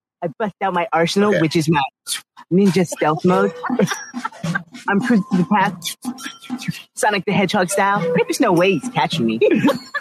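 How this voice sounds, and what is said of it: Impression of Wu. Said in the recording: “doing a Wu impression”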